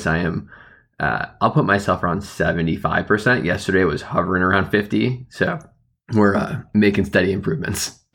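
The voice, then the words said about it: Voice still sounds unwell. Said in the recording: “you can probably still hear it in my voice”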